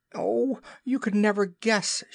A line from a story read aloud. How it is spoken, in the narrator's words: cried